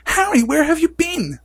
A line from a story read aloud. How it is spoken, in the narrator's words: Hermione squeaked